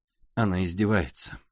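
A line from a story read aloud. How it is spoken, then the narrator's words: Quiet. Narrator (Russian): тихо сказал Пашка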